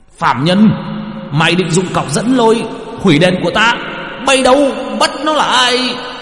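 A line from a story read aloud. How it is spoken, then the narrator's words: Hissing shriek. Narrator (Vietnamese): Quan nọ rít lên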